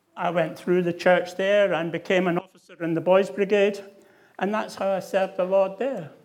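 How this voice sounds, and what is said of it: Scottish accent. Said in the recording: “as you can probably realise from my accent, in the Church of Scotland”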